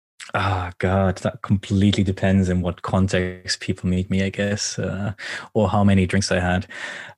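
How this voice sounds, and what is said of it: Hard-to-place mixed foreign accent. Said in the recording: “my accent is pretty difficult to place. I've heard from people, like, I'm German, but I lived a lot of time in the UK, now in Japan. I've heard anything from Irish to South African”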